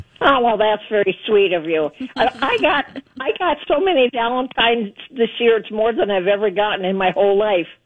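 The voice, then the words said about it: Slightly hoarse voice. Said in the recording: “I still have a little hoarseness in my voice”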